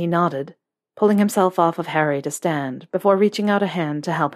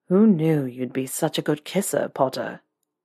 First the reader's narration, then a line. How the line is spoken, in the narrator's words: Draco murmured against Harry's lips